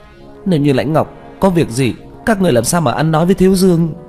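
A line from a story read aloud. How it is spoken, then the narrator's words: Crying. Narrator (Vietnamese): Tạ Vũ Tình khóc lóc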